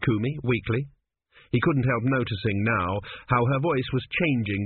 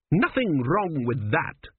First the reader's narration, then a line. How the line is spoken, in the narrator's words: she snapped